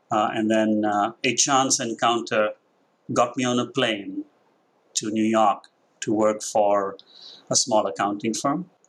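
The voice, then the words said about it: Indian English accent. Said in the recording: “that's not a Southern accent ... So the accent has its... I'm Indian. I grew up in Mumbai.”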